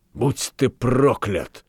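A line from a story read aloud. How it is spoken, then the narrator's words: Hissing, dropping the pretense. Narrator (Russian): зашипел Франк, теряя охоту разыгрывать нравственное волнение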